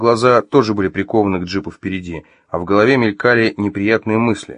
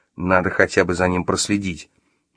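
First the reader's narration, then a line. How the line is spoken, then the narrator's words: Grumbled. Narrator (Russian): буркнул Артем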